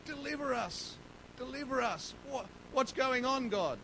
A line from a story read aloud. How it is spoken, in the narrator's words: Moses cries out to God